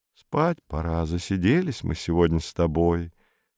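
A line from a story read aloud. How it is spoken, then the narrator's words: Quiet, from outside. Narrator (Russian): Во дворе кто-то сказал тихонько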